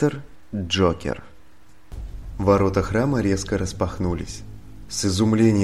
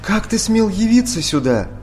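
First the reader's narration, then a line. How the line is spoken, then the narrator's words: Indignant priestess exclaiming. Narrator (Russian): возмущенно воскликнула верховная жрица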